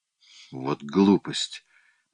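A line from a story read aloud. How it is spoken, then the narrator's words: Muttered. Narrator (Russian): пробормотал майор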